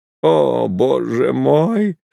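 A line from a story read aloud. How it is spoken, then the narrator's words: Groaning through laughter. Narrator (Russian): стонал он среди смеха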